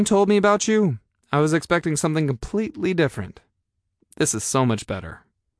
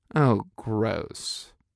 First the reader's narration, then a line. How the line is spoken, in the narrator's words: I muttered